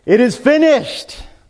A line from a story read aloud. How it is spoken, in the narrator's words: as he was dying, he could shout